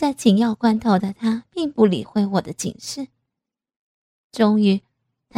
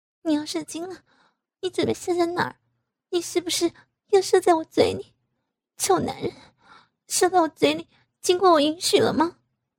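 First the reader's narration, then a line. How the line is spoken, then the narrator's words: Choked throaty warning. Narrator (Chinese): 我用哽咽的喉音向他发出警示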